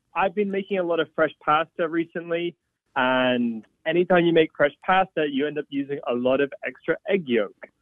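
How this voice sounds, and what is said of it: Slight accent. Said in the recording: “I hear a little accent there”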